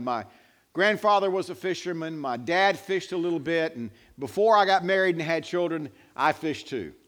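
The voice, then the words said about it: North Carolina Southern accent. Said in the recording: “You can tell from this carefully honed accent, I spent most of my life in North Carolina”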